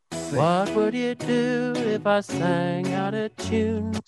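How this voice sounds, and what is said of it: Sung imitation of another person's voice. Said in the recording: “I'm not in time, not in tune, I'm not in anything. But I think it's a good impression of Ringo Starr”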